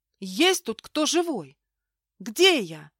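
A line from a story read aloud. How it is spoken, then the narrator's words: Shouted, then abruptly broke off. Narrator (Russian): крикнула в лес, но тут же осеклась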